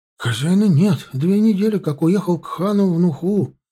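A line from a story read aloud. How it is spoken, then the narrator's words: Frightened highlander in Azerbaijani. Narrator (Russian): проговорил по-азербайджански, испуганно горец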